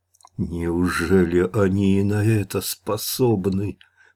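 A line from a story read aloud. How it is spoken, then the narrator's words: Through gritted teeth. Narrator (Russian): процедил сквозь зубы Иван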